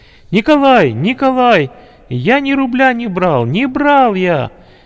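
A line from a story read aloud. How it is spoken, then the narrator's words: Frightened, real shouting. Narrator (Russian): раздался испуганный голос Димы, который по-настоящему кричал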